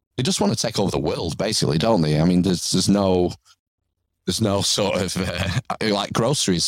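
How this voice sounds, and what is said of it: English accent. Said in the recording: “for those who can't tell by your accent, you're definitely in England”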